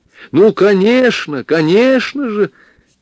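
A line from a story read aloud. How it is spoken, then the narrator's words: Exclaiming. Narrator (Russian): воскликнула Зоя Михайловна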